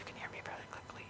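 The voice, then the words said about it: Whispering. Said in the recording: “this is my whisper voice”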